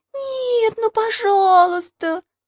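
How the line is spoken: Whimpering. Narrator (Russian): захныкала Маша

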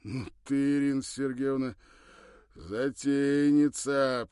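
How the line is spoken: Almost cheerful drawl. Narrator (Russian): почти весело протянул он

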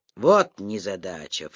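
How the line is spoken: Snort. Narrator (Russian): фыркнул Вексфорд

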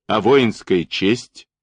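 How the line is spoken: Shouted. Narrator (Russian): крикнул Даватор

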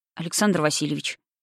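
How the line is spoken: Quiet. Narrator (Russian): сказал он тихо

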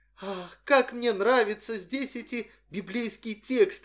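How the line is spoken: Exclaiming. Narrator (Russian): воскликнула она

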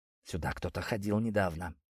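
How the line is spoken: Confident whisper. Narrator (Russian): уверенно прошептал он

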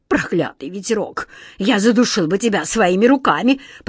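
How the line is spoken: Furious hiss. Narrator (Russian): прошипел ему вслед главный сборщик улыбок

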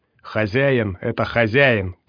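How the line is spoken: Growling. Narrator (Russian): прорычал Роб

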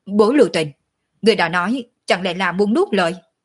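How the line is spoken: Furious, choking with rage. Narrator (Vietnamese): Ninh Thiền Nhai hầu như hộc máu, giận dữ nói

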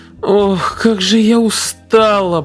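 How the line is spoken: Weary moan. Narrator (Russian): простонала она

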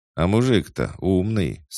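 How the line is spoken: Plain. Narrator (Russian): сказал царь

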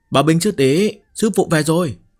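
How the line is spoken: Loud shout. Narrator (Vietnamese): Nàng ta hét lớn

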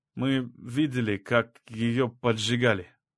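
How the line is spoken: Uncertain. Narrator (Russian): неуверенно заговорил Ласол

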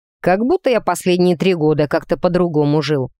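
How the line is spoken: Scoffing snort. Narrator (Russian): фыркнул он в ответ

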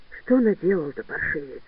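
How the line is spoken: Quiet. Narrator (Russian): сказал тихо

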